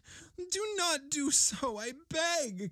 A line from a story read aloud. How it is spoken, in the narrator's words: cried the ghost